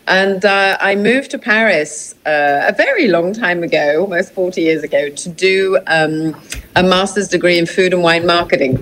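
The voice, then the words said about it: British English accent. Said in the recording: “I'm British originally, as you can probably tell from the accent.”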